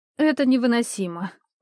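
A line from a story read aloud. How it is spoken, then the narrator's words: Weary exhale. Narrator (Russian): в очередной раз выдохнула Сандра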